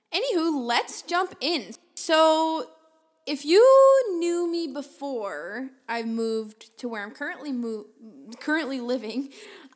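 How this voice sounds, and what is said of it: Loud, carrying speaking voice. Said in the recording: “I'm sorry if my voice echoes a little bit. It's just because I'm talking really loud... I do have a loud voice. And as I'm told, it tends to carry.”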